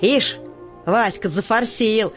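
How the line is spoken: Mocking. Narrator (Russian): насмешливо отзывается Котика

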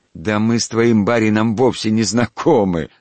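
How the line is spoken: Laughing. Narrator (Russian): засмеялся Черепов

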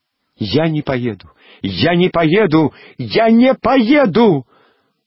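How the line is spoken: Sudden scream. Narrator (Russian): вдруг закричала Алевтина

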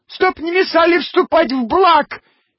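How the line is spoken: Thin squeaky voice. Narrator (Russian): пискнул тоненький голосок

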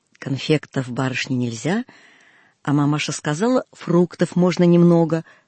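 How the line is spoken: Plain. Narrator (Russian): сказал он

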